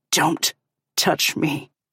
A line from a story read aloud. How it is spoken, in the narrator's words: he growls